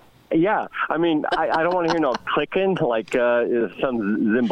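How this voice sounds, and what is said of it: Usual voice. Nothing is said of it.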